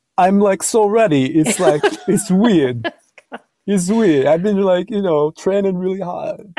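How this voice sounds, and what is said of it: Bad John Travolta impression. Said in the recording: “Travolta ... The requisite bad impression.”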